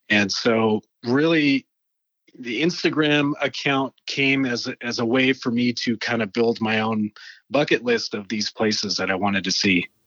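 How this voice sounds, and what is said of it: Canadian accent. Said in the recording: “I hear the Canadian accent. I hear it”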